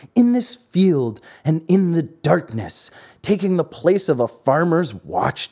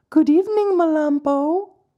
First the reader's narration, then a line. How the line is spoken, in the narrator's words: One of them … said in a sweet voice